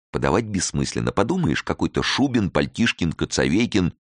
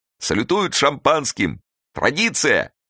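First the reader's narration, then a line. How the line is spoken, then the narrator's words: Shout over noise, choking laughter. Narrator (Russian): крикнул сквозь грохот Тимофей Тимофеевич, давясь смехом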